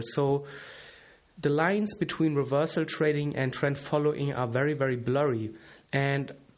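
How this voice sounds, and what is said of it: German accent. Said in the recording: “You can tell I'm a German, I guess, by this accent.”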